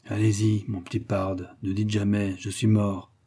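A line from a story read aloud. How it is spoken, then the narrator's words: Murmured. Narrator (French): murmura Cody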